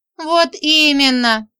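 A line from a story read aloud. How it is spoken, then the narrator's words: Whimpering. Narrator (Russian): захныкала Женька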